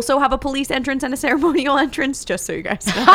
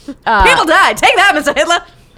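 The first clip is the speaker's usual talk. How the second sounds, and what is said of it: Put-on mid-Atlantic accent. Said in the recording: “read this whole thing in a mid-Atlantic accent.”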